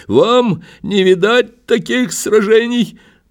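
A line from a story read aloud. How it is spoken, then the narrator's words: Drunk young man shouting. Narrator (Russian): совсем юный и пьяный до беспомощности чиновник прокричал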